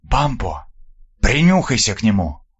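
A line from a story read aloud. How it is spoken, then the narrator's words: Whisper. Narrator (Russian): прошептал десятник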